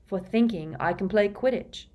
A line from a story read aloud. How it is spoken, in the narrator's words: said Ron